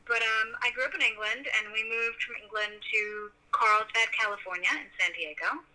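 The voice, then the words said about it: Transatlantic English-American accent. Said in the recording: “I have a very weird, I guess, transatlantic accent, but I think I'm American now”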